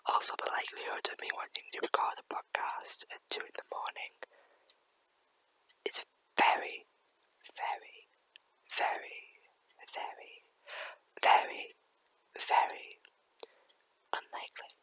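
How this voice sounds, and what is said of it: Whispering voice. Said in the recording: “people heard me whispering”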